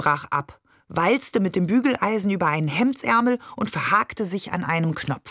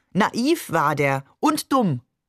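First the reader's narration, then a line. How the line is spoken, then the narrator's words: Called out. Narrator (German): rief Maman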